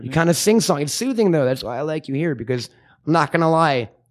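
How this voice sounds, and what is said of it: Deep, slightly raspy voice. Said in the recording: “I have a deeper voice than most of the average bears ... My voice is a little raspy.”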